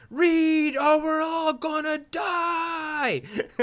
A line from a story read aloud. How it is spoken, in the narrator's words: Van Helsing looks back at the girl and yells